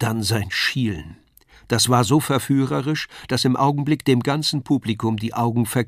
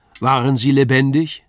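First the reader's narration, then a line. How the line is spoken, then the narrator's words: Called out. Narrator (German): rief er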